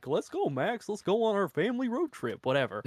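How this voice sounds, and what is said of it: Impression of Goofy's voice. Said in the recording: “Great impression.”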